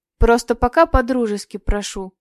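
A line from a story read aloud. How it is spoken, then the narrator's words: Calm. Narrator (Russian): все так же спокойно ответил Петр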